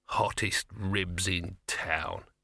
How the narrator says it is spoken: he muttered

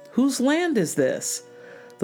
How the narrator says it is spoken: the king called out the window

